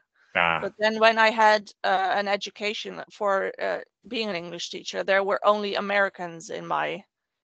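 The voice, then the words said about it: Mixed British-Dutch English accent. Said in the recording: “I used to have very, very Queen's English ... my British accent into a mix. And of course, my Dutch accent is always shining through in various places ... you have dulcet tones”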